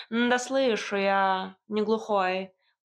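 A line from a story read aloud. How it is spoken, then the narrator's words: Grumbling cat. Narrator (Russian): проворчал кот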